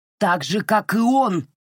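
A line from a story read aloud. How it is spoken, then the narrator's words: Booming. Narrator (Russian): прогремел Сэл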